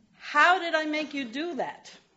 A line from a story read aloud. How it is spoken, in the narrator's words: he asked